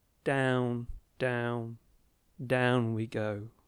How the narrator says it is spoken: instead of the exuberance, he sadly trolled out

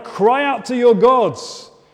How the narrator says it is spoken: frantically hurling cargo over the side to try and lighten the boat, shouting to one another

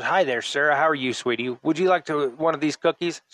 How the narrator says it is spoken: she asked

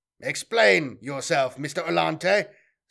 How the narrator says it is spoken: Semper barked

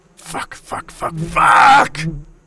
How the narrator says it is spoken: Jacob roared

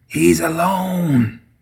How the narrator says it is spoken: he whispered

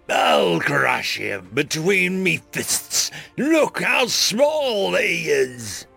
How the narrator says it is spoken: an orc fighter bellowed

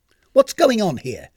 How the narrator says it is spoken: she snapped jealously

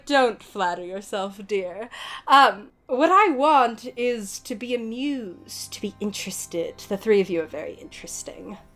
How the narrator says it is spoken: She laughs and she's like

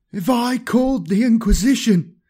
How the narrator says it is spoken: he shrieked

